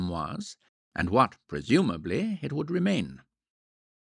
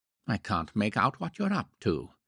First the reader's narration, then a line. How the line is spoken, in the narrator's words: he muttered uneasily